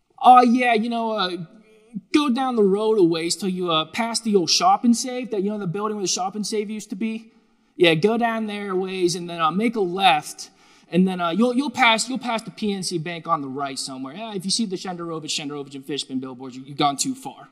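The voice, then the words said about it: Put-on Pittsburgh accent. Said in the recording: “excuse my Pittsburgh accent, I'm working on it”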